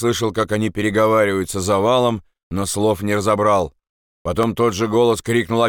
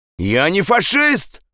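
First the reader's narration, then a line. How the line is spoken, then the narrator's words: Shouted. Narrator (Russian): крикнул Андрес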